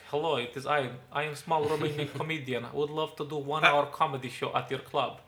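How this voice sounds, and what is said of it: Put-on Romanian accent. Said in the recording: “It's an amazing Romanian accent. ... spot on.”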